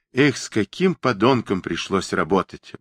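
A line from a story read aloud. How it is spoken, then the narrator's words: Sighing. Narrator (Russian): вздохнул Хилков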